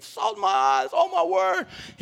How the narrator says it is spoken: he starts screaming

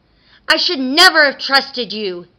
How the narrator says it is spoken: the Tooth Fairy cried

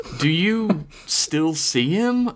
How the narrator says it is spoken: Alyssa asked hesitantly

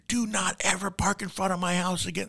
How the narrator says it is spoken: Screaming to, at top of his lungs

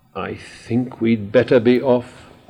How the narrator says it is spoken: said Moomin Papa anxiously

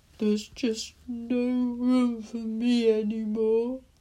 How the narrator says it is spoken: he said sadly

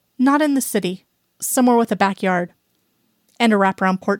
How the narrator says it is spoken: she says

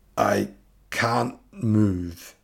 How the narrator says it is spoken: the cracked voice gasped out of the dark cave

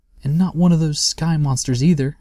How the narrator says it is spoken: asked Sniff anxiously

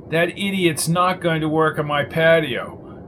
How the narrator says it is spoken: yelled Jones

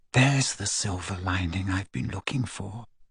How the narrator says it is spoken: she whispered

